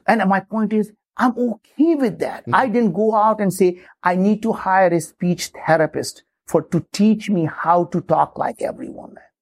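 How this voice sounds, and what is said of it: Strong non-native accent. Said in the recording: “I don't talk like most people in this country. I still have that strong accent ... You do. Certainly do.”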